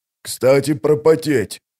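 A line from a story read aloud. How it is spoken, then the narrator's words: Hoarse rasp. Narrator (Russian): прохрипел Вал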